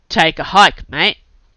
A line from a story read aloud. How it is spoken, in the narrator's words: growled the bruiser